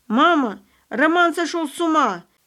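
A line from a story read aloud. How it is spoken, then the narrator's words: Frightened woman screaming loudly. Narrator (Russian): во весь голос кричала испуганная тетя Моника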